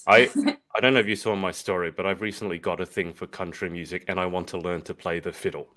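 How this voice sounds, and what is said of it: Non-local accent. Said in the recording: “obviously you can tell from my accent, I'm not from your around where you are”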